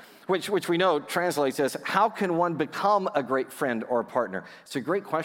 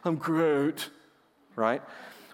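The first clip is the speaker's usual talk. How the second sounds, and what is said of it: Teenage Groot imitation. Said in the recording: “your teenage Groot imitation”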